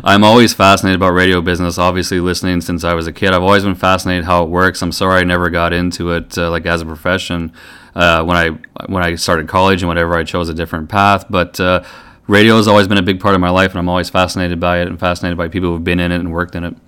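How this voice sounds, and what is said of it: Good radio voice. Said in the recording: “You've got a good radio voice”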